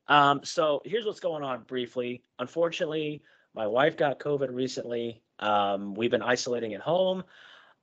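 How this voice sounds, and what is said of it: Rough, unwell-sounding voice. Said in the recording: “my voice sounds a little bad. Even Shiloh's like, whoa, what happened to your voice? ... some kind of, you know, stuff in my throat, but I sound a lot worse than I actually feel”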